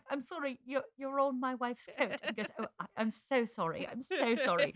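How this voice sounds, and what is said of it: Put-on British accent. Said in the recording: “I do a better accent than Renee Zellweger ... a British accent”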